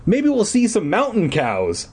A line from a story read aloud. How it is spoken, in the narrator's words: I exclaimed sarcastically